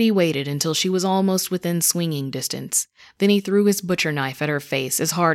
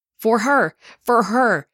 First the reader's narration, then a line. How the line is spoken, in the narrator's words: screamed